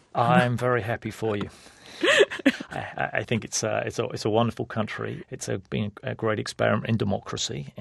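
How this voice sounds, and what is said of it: English accent. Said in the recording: “you're from England originally. I think that our listeners may hear that in your accent.”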